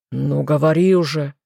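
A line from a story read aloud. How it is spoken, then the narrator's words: Impatient growl. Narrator (Russian): нетерпеливо рыкнул лорд Карлтон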